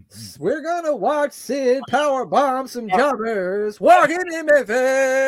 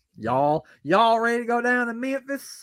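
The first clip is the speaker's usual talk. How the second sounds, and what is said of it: Put-on Mississippi Southern accent. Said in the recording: “I imagine they talk something like that. That might be more of a Mississippi accent that I did there than Memphis.”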